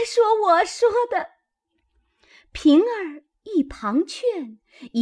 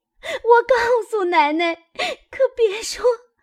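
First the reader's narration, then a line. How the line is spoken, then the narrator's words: Frightened crying plea. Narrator (Chinese): 吓得那丫头一行哭求道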